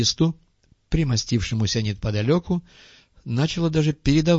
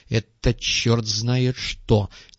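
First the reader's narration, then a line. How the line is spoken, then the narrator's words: Displeased grumble. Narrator (Russian): недовольно проворчал финансовый директор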